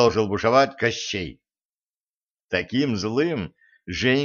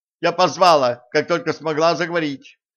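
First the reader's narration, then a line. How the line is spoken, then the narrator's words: Shouted reply. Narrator (Russian): выкрикнула в ответ Женька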